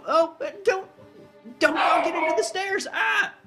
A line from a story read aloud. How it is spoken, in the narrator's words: you hear the man, like, yelp